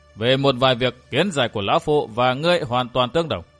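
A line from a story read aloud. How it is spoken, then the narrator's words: Hearty laughter. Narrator (Vietnamese): Vạn Thế Hảo cười lớn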